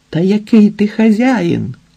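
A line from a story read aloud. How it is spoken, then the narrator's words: Desperate exclamation. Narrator (Ukrainian): відчайдушно вигукнув Ілія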